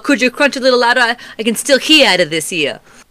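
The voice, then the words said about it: Gruff cartoon turtle character voice. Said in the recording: “my best Raphael impersonation ... I'll give it a B minus ... It was bad.”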